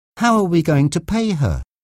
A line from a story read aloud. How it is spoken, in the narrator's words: Diane asked nervously